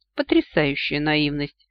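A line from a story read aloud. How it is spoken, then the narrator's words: Chuckling. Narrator (Russian): хохотнул Ахура Мариэль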